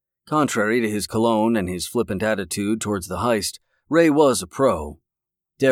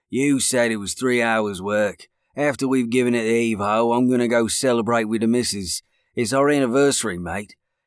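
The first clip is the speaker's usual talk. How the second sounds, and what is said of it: Strong Cockney accent. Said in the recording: “in his strong Cockney accent.”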